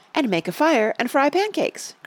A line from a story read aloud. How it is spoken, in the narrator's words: cried Tacy